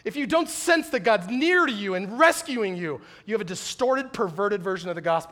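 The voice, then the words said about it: Yelling, loud impassioned preaching. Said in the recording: “Why am I yelling?”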